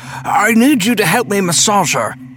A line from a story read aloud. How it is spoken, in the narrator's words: Stan bellowed